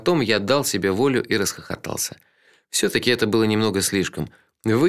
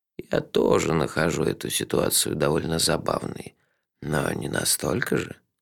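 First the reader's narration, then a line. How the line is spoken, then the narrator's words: Soft. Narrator (Russian): мягко сказал он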